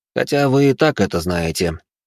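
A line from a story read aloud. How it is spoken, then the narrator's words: Young man, heavy sigh. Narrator (Russian): добавил молодой человек и тяжело вздохнул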